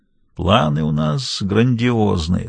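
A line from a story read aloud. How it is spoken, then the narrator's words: Sleepy remark. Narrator (Russian): сонно заметил он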